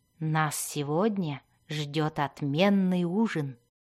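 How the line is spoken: Sly whisper. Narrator (Russian): прошептал он Зирту

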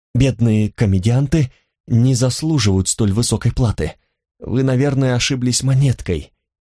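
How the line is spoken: Humble mutter. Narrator (Russian): пробормотала я, смиренно

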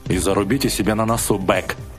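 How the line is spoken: Menacing. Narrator (Russian): грозно добавил Пауэлл

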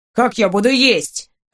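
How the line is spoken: Irritated question. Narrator (Russian): раздраженно спросил Максимилиан

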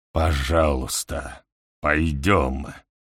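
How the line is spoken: Mumbling old man. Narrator (Russian): бормочет старик

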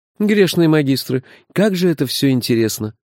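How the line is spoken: Admiring breathless exclamation. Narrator (Russian): восхищенно выдохнул он

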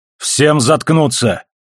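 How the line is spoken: Barking into microphone. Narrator (Russian): рявкнул в микрофон Холден

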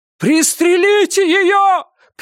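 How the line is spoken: Shouted. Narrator (Russian): крикнул кто-то

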